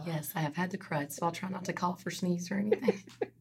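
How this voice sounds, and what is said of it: Hoarse, fading voice. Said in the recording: “Sounds like you're losing your voice a little bit.”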